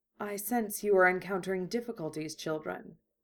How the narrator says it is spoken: pronounced solemnly

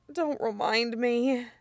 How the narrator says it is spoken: he mutters

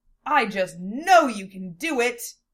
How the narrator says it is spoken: Lena cried out in an imitation of Amelia's upbeat attitude

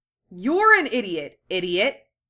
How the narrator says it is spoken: Naruto barked back, right in her ear

